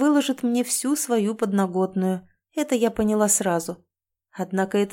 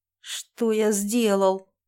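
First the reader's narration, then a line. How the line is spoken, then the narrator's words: Mumbling man. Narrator (Russian): промямлил мужчина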